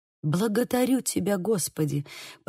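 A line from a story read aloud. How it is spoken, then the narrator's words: Whisper, suppressed joy. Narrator (Russian): прошептал молодой человек, с трудом сдержав радостный возглас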